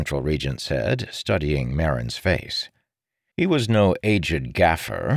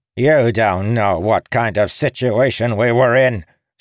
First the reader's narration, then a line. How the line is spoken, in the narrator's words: spat the man